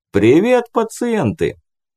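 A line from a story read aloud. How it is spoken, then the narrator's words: Brisk cheerful reply. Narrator (Russian): Бодро откликнулся Брэндон Уолкс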